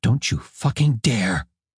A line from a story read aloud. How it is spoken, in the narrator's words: she whispered